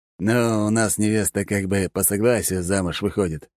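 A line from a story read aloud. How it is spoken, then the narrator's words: Explaining after laughing. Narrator (Russian): пояснил Алекс, отсмеявшись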